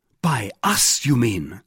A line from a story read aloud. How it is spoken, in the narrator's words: cried D'Artagnan